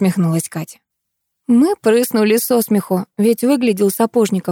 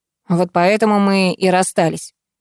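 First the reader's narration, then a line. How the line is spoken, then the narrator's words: Grumbling. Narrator (Russian): проворчал Илья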